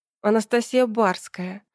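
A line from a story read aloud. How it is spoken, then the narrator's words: Woman's angry hiss. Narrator (Russian): Злобно прошипела женщина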